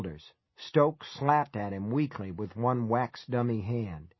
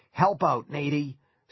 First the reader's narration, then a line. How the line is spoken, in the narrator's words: Skip grunted